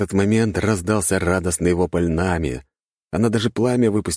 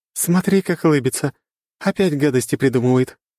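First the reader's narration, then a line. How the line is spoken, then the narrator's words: Laughing from a distance. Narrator (Russian): хохотала Аня, уже отошедшая в сторону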